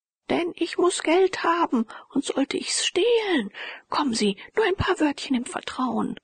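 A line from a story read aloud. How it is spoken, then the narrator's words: Calling out. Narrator (German): rief Herr von Tulpen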